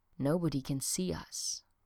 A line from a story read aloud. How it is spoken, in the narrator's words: she whispered